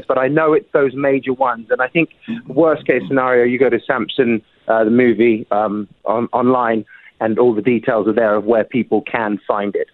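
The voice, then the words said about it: Strong British accent. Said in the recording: “Your accent has become way stronger than when I met you ... In terms of more British? ... Yes.”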